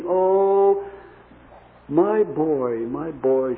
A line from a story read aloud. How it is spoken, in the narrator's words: she said